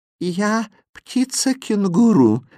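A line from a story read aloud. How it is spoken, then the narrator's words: Tender sing-song. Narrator (Russian): нежным голосом пропело чудовище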